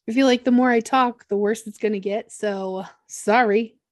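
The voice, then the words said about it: Rough, hoarse, strained voice. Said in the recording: “sorry about my voice ... my chainsaw voice ... The harder it is for you to catch your breath.”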